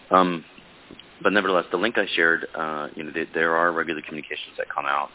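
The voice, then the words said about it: Hoarse, under-the-weather voice. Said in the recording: “My voice is a little out of the weather.”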